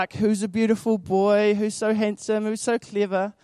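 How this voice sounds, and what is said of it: Cooing baby voice. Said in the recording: “It's my baby voice.”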